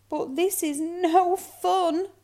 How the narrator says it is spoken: whimpered Little Snow Bear

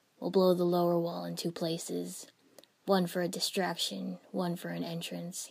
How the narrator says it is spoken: he said

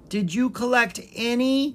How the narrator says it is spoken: She cried

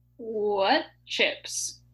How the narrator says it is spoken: asked Jill, trying to chew slowly

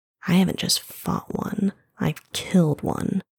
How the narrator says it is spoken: wicked grin, said in a low voice

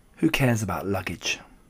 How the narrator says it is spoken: said

